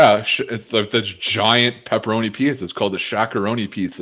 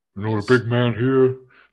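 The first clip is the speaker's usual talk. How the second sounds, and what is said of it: Shaquille O'Neal impression. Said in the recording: “a good Shaq impression”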